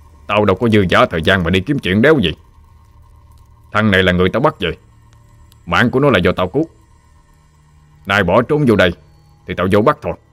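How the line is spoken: Irritable snap. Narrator (Vietnamese): Quan lửa gắt

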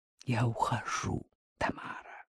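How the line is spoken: Quiet remark. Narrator (Russian): тихо обронил Хромин

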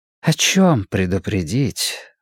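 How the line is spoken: Gentle question. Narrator (Russian): ласково спросил кардинал Мустафа

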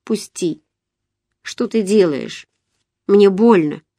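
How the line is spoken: Quiet, pained, crushed voice. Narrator (Russian): не выдержав боли, я сказала убитым тихим голосом

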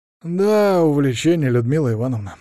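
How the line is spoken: Heavy sigh. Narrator (Russian): вздохнула я тяжело

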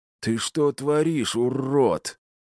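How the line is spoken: Hateful hiss. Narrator (Russian): С ненавистью прошипел Серый

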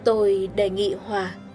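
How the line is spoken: Choked voice. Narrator (Vietnamese): Negilesco bằng giọng nói nghẹn lại, lên tiếng

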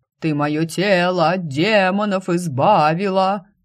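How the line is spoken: Piercing wail outside. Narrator (Russian): особо пронзительно взвыли на улице

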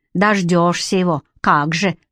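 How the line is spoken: Old woman grumbling. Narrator (Russian): проворчала старушка

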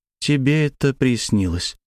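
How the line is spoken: Soft gentle voice. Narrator (Russian): мягко сказала Славя

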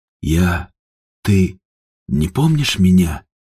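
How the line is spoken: Breathed out. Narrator (Russian): Наконец выдохнул Степан, потерянно

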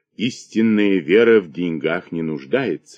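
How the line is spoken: Gentle. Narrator (Russian): сказал епископ мягко

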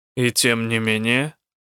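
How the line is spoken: Even voice. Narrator (Russian): ровным голосом произнес Рук

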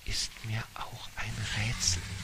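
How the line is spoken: Wizard whispering. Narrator (German): flüsterte der Zauberer

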